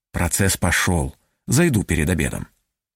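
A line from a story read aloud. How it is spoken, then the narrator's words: Barely audible. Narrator (Russian): чуть слышно сказал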